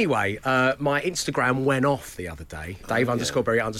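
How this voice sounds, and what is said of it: Usual voice. Nothing is said of it.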